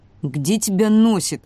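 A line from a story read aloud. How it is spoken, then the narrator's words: Irritated question. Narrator (Russian): раздраженно спросил ворон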